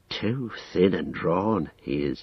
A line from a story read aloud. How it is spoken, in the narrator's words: he muttered